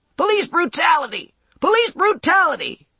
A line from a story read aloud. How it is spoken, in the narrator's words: he yelled